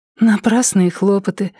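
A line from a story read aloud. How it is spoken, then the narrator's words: Sighing. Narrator (Russian): вздохнула она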